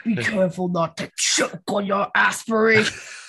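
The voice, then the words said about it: Imitates another person's voice. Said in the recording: “That was a great impression. I love it.”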